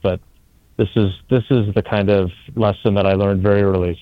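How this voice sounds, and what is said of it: Hushed golf announcer voice. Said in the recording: “I'm going to try and keep it down. That's why I'm using my golf announcer voice.”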